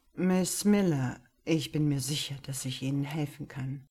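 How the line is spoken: Sonorous voice. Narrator (German): sagte er mit sonorer Stimme

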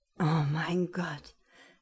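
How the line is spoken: Gasping. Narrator (German): keuchte er

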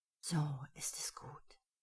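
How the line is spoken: Whispered. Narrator (German): flüsterte er

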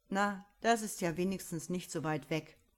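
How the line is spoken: Somewhat mocking. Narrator (German): meinte eher spöttisch

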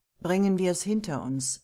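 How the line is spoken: Plain. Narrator (German): sagt sie

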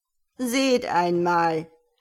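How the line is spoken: Mocking tone. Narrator (German): sprach spöttisch

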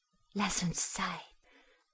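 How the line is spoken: Murmured into ear. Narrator (German): raunte ins Ohr

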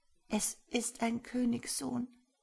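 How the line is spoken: Plain. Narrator (German): sagte sie

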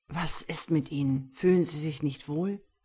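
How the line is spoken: Hissing. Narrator (German): zischte ich ihr zu

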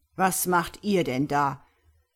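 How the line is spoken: Thundering voice. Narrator (German): donnerte der Blockmeister

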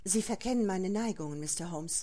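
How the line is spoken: Shifting emotions, resigned answer. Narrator (German): Zuerst Unglauben, Erstaunen, Zorn, Scham und dann eine Form der Ergebenheit, ein Hauch von Depression, als sie antwortete

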